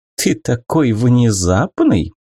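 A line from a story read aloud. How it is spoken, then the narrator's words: Cooing. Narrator (Russian): проворковала Арада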